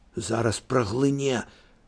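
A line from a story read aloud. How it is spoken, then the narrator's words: Whisper. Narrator (Belarusian): шэптам сказаў Алесю Андрэй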